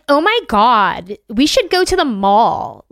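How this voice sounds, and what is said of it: Put-on American Valley Girl accent. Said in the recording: “real Southern country, or Valley Girl ... do an American accent. They'll do one of these.”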